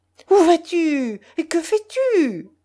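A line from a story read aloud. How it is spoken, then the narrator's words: Yelped. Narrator (French): glapit Lambert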